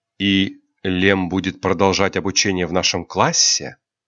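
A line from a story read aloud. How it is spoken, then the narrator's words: Calm young woman asking. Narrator (Russian): спокойно спросила девушка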